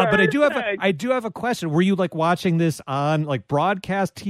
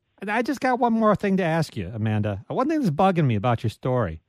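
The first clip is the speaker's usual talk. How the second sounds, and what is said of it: Weak impression of a TV detective. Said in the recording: “that was my Columbo impersonation. I don't know if that came through. I'm really bad at impersonations.”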